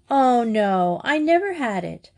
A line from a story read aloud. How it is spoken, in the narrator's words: Madge began to grudge with laughter